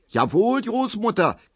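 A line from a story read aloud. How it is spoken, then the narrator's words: Shrieking. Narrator (German): kreischt Frau Ziebland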